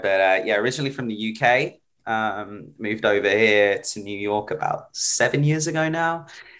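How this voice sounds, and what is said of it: British accent with mixed twang. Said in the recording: “apparently I now sound like I'm from New Zealand ... my accent with, all my American friends and then Australians has sort of given me this weird twang. ... So I'm British.”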